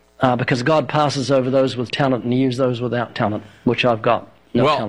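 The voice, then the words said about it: New Zealand accent. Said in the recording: “the accent... I was thinking maybe Northern Alabama, but New Zealand”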